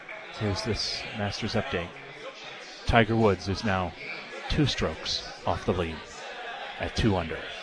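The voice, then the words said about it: Golf announcer voice. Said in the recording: “I have to switch over into golf announcer voice”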